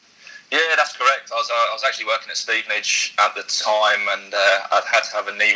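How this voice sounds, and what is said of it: British, non-Australian accent. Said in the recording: “I recognise that accent. It's not Australian. ... you're from the UK”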